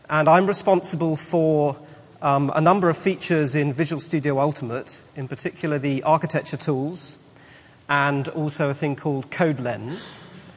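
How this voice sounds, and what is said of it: British English accent. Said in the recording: “As you can probably tell by my accent, I am British”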